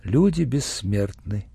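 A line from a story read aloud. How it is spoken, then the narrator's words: Quiet. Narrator (Russian): негромко сказала Ия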